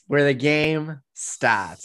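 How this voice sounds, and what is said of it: Put-on Boston accent. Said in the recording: “I'm taking your Boston accent from you. I'm gonna have it now.”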